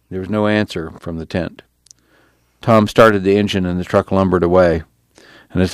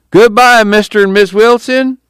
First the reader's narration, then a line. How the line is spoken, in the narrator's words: Pa called out